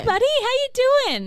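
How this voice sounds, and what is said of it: Condescending teacher voice. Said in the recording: “He has the condescending teacher voice.”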